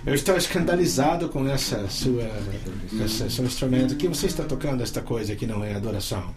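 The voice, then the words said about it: Portuguese with an American foreign accent. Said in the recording (Portuguese): “o cara falava com o sotaque de gringo”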